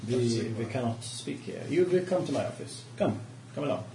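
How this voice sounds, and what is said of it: Put-on accent that keeps drifting. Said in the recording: “Your accent's ... it's drifting, yeah, I'm drifting”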